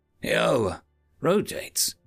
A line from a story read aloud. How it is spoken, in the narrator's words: human friend Mercy called out with another yawn